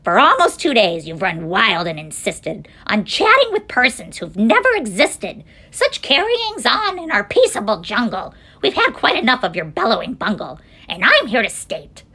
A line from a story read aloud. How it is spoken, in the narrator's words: snapped the big kangaroo